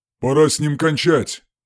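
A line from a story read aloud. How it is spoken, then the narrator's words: Growling. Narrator (Russian): прорычал один из бойцов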